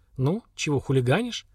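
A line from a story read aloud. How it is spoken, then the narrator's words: Soft question. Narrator (Russian): Слава мягко спросил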